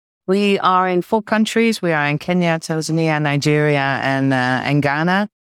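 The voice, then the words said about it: Dutch accent. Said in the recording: “My own sort of home is Amsterdam, the Netherlands. You might be able to tell that from the accent”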